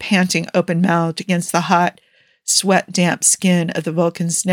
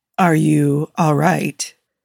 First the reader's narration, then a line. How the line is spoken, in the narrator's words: Spock's voice rumbled through his chest